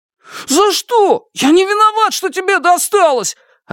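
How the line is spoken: Offended shout. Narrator (Russian): обиженно закричал Шунь

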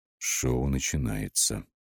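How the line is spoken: Quiet warning. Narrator (Russian): тихо предупредил Ян

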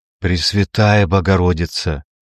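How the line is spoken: Whispered. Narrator (Russian): прошептал Малкольм

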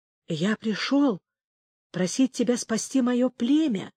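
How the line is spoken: Whispered. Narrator (Russian): прошептал Эль-Ахрайрах

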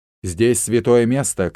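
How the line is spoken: Shouted. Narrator (Russian): крикнул он

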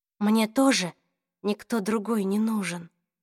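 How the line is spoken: Whisper. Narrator (Russian): прошептала Клэри

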